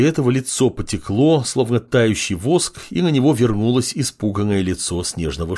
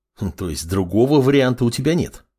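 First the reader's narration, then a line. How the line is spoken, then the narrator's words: Snorting young man. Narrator (Russian): хмыкнул парень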